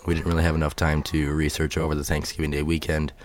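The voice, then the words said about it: Unwell, weak voice. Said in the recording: “as you can tell, my voice is not all that great”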